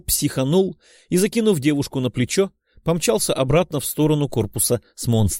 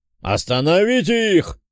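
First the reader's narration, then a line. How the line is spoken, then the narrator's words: Commander barking. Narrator (Russian): рявкнул командир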